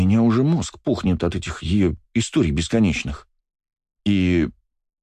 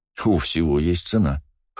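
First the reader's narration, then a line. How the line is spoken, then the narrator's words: Smirking grunt. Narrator (Russian): хмыкнул я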